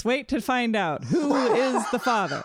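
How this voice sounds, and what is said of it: Imitates a talk show host. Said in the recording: “I can't remember if that's how Maury talks. It could be a pretty good impression.”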